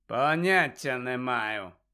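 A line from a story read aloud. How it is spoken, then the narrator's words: Cold reply. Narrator (Ukrainian): холодно відповів Снейп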